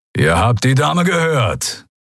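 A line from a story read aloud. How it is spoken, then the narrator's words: Growling. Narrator (German): knurrte Keru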